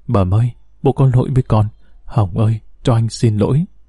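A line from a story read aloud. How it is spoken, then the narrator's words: Muttering. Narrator (Vietnamese): hắn lẩm bẩm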